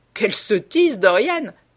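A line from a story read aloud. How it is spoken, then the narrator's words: Laughing. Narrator (French): dit son compagnon en riant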